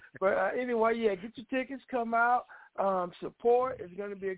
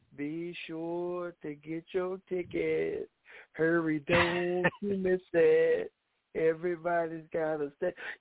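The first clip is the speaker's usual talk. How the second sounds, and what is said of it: Imitates a singer's voice. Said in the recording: “In my Charlie Wilson voice ... That's Charlie Wilson from the Gap Band.”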